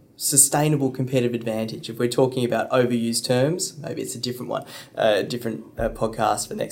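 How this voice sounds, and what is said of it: Usual voice. Nothing is said of it.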